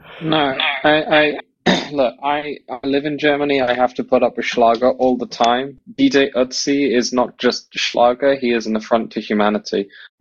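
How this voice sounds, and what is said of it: English Bristol accent. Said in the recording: “You're from England originally ... Your accent ... I'm from Bristol”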